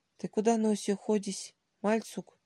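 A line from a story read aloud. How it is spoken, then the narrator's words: Sleepy call. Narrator (Russian): сонно окликнул Сергей хозяин кофейной, молодой турок Ибрагим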